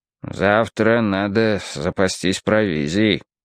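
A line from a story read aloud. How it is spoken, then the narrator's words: Gloomy grumble. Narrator (Russian): мрачно проворчал он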